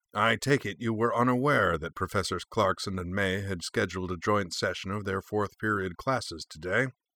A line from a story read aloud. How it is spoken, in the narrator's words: Odo went on dryly